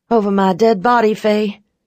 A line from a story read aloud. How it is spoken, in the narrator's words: I snarled